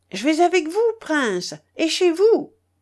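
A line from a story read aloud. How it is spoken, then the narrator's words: Shouting. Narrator (French): criai-je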